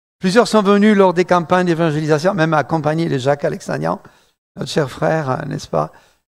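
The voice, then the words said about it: Slight southern French accent. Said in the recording (French): “je vais avoir un petit accent du sud, le sud de la France, Toulouse”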